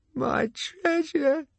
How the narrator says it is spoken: he cried

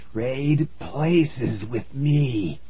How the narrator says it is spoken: rasped

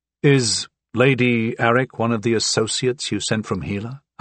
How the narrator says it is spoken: I asked

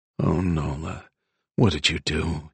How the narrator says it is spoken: he muttered

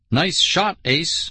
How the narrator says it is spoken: I cried sarcastically

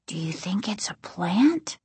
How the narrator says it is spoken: Casey asked very quietly

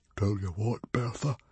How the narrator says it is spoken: whispered Stoic

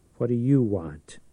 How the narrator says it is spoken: Church asked sullenly

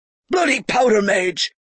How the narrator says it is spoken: he spat

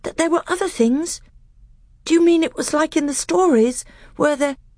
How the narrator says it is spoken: he gasped

